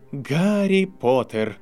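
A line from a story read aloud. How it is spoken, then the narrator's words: Breathless exhale, woman. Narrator (Russian): выдохнула профессор МакГонагал, лежа на полу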